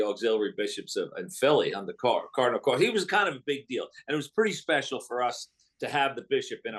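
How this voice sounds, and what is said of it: Usual voice. Nothing is said of it.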